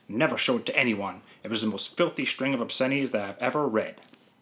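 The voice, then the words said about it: Put-on accent for a quoted lawyer. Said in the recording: “I gave the same accent at the end there for the lawyer... they would have the same accent”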